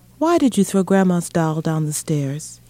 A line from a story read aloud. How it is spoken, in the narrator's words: he asked sadly